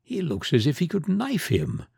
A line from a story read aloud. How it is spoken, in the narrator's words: whispered Tabary